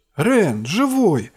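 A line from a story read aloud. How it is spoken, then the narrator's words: Exclaiming. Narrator (Russian): воскликнула Анлуса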